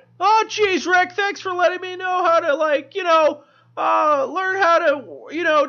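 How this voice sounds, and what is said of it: Morty impression from Rick and Morty. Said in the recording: “do an impersonation ... how I just finally fell into the voice ... When you Morty”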